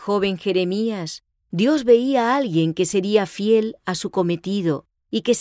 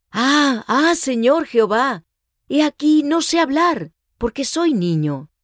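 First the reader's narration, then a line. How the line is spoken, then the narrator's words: Overwhelmed, unworthy exclamation. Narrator (Spanish): se quedó abrumado por el sentimiento de su indignidad y exclamó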